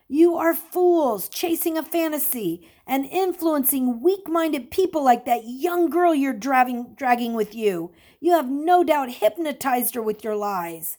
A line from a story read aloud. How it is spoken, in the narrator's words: The mob, following the group of seekers, yelled